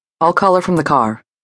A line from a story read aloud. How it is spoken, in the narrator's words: Logan said